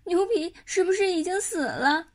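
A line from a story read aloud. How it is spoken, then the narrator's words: Tearful voice. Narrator (Chinese): 毛超的声音带着哭腔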